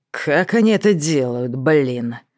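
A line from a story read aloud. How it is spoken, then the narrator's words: Grumbled under breath. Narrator (Russian): проворчал под нос самому себе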